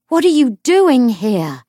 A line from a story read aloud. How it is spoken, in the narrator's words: he demanded over the roar of the fire